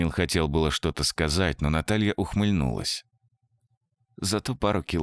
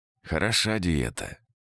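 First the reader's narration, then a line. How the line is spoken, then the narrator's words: Grumbling mutter. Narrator (Russian): пробурчал он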